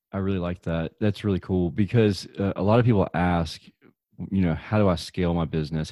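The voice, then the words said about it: Deep Southern US accent. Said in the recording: “my deep Southern accent”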